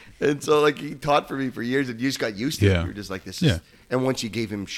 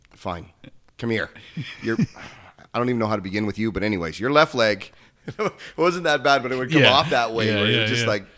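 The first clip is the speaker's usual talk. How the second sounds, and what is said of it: Imitates another person's voice. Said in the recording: “It's pretty close to Chris Kavita's impersonation too.”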